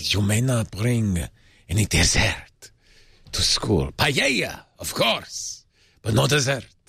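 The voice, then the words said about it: Generic put-on foreign accent. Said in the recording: “a charming French accent ... your accent there ... it's definitely foreign ... It's just a generic foreign accent”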